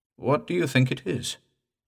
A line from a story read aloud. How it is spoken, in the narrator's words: I asked, as in strained attention